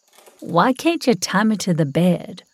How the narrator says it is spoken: I asked

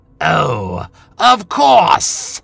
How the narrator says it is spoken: she sneered

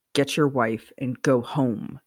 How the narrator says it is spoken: Sirius snapped

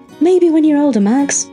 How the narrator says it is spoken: said, with a laugh

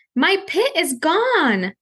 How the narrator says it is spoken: I cried out so the whole world would hear

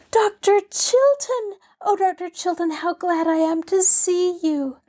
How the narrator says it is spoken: cried Pollyanna

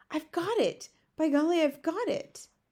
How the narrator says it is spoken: in a voice filled with excitement, she cried out

